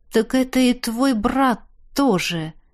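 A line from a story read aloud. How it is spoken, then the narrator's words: Realizing aloud. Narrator (Russian): догадался я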